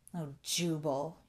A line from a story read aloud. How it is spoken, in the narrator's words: he groaned